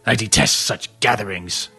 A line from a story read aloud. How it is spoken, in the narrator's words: Madworth grumbled